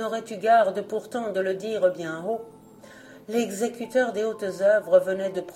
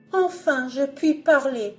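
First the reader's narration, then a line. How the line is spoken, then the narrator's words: Exclaiming. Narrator (French): s'écria-t-elle alors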